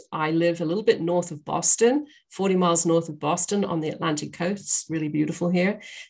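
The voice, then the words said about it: Mixed British accent. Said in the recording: “this silly accent is I have, I'm a Brit ... you'll notice I will go in and out of all of these different accents. I'm a bit of a melting pot when it comes to accents.”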